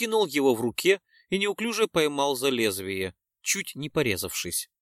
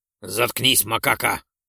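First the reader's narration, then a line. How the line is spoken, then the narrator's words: Snapping retort. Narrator (Russian): огрызнулся напарник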